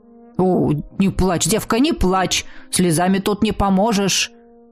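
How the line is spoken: Grumbling clerk. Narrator (Russian): заворчал дьяк

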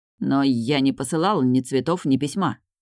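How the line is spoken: Muttering. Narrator (Russian): пробормотал он

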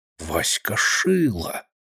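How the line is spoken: Whisper to himself. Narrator (Russian): шепнул про себя

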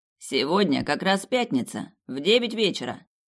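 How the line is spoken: Dry businesslike. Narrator (Russian): сухим деловым тоном сообщил он

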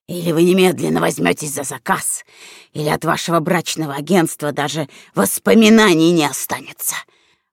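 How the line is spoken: Stung hiss. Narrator (Russian): прошипел уязвленный клиент

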